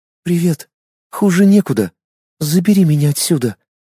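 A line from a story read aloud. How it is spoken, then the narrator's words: Answering, then sobbing. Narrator (Russian): ответила Инна и разрыдалась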